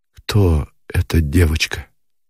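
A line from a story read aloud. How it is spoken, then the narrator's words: Muffled breathless question. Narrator (Russian): глухо спросил Никитин, и от удушья, от сердцебиения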